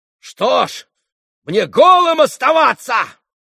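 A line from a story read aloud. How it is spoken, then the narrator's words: Shout. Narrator (Russian): крикнул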